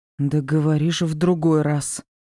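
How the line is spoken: Growled. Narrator (Russian): Прорычала

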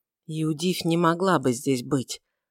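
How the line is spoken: Mutter. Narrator (Russian): пробормотал Варавва

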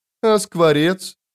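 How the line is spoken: Sad smirk. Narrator (Russian): Молоток печально ухмыльнулся

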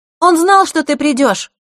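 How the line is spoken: Loud over rain. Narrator (Russian): Громко, чтобы перекрыть шум дождя, произнесла Захара

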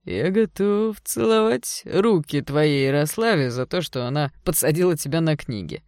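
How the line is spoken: Mocking. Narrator (Russian): насмешливо сказал Серж

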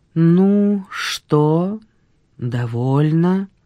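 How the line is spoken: Unnaturally flat voice. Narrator (Russian): Дуняшка ответила неестественно ровным голосом

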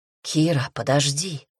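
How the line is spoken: Whisper. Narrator (Russian): Прошептал зеленоглазый

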